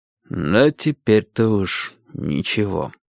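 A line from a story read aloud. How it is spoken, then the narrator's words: Tired. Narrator (Russian): устало откликнулся Гурский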